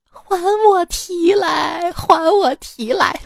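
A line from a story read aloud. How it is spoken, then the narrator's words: Pig crying, complaining. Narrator (Chinese): 缺一只脚的猪 就跟我哭诉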